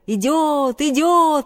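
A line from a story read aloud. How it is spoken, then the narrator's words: Frantic children shouting. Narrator (Russian): неистово закричали ребята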